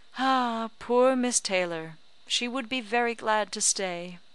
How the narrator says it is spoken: Woodhouse's giving a gentle sigh and saying

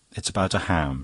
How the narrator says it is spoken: she said

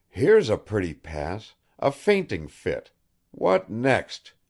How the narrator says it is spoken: Bazarov exclaimed involuntarily

